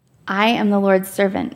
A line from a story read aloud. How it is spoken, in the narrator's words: Mary answered